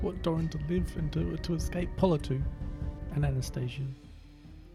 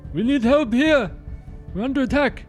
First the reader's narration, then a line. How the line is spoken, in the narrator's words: Arc yells out